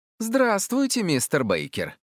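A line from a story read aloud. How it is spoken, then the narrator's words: Cheerful. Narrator (Russian): весело сказала она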